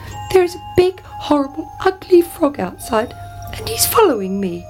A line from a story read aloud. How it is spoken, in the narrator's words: cried the princess